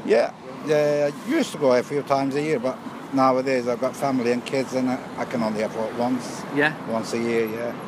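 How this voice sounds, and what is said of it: Slight Lancashire English accent. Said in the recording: “You've got a bit of a Lancashire accent.”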